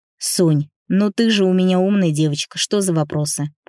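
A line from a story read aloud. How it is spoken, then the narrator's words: Grumbling. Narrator (Russian): проворчал Никита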